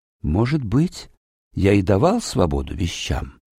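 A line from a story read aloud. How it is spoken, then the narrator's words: Quiet wanderer. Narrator (Russian): тихо ответил странник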